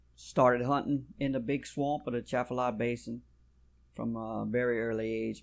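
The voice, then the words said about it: South Louisiana accent. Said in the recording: “y'all probably can tell from a little bit of my accent because they, they pick me out no matter what part of the country I go to ... You're from Louisiana.”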